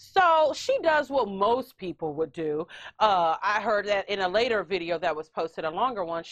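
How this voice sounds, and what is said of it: Usual voice. Nothing is said of it.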